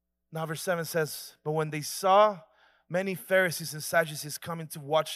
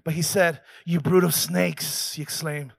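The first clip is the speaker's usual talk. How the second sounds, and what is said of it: Put-on accent. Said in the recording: “I'm sorry, I got to make the accent.”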